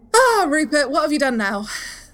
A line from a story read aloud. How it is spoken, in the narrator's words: laughs, and goes